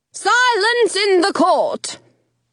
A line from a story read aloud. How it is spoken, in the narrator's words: the Queen of Hearts bellows